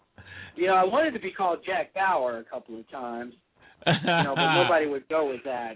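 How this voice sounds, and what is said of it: Radio announcer voice. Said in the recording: “I got the radio voice going.”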